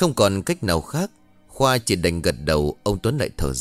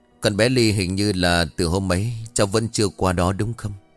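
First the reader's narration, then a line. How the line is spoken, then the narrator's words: After a sigh. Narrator (Vietnamese): Ông Tuấn liền thở dài xong nhìn Khoa nói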